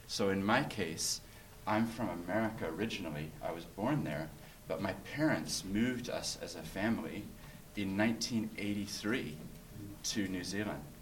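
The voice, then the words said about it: Noticeable foreign accent. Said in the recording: “Accent. ... An accent, yeah. So I have an accent.”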